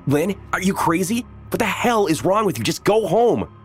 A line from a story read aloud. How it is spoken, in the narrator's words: I shouted